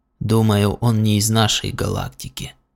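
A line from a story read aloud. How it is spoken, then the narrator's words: Whispered reply. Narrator (Russian): шепотом ответил Каркхан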